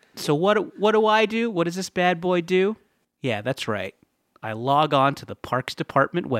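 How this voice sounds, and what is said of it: Usual voice. Nothing is said of it.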